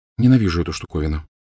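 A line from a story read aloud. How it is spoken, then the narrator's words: Quiet. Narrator (Russian): тихо сказала она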